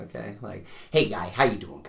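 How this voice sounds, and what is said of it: Imitates another person's voice. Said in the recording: “this is my Mr. Whitman impersonation.”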